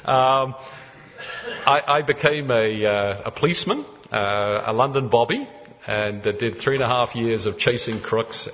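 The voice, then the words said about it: South London English accent. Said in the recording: “South London, Croydon area. And that explains a bit my accents, if some of you are struggling with it. I'm told I have an accent”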